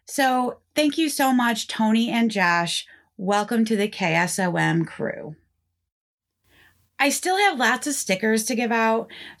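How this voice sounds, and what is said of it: Northeast Pennsylvania accent. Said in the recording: “my Northeast Pennsylvania accent”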